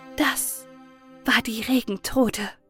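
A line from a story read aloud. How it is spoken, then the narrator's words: Whispered together. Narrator (German): flüsterten Braut und Bräutigam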